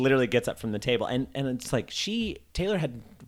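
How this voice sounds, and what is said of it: Usual voice. Nothing is said of it.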